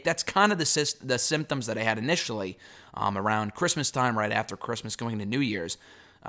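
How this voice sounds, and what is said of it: Damaged, hoarse voice. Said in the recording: “my voice is shot”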